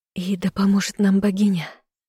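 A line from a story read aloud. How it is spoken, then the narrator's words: Sighed. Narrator (Russian): вздохнула я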